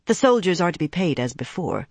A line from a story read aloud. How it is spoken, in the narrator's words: Egwene muttered